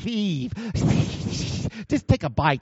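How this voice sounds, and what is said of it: Snake voice impression. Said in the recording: “my best snake impression.”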